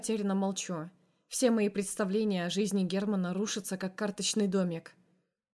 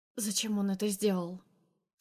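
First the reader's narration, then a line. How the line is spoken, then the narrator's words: Hoarse question. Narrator (Russian): спрашиваю осипшим голосом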